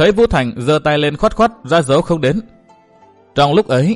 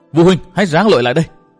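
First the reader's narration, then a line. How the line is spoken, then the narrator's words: Urgent loud shout. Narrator (Vietnamese): Trước tình hình nguy ngập đó, Nguyên Bình hét lớn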